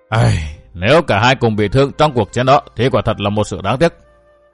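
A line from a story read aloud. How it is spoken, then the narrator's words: Blurted with a sigh. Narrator (Vietnamese): Du Tử Nha buột miệng thở dài thốt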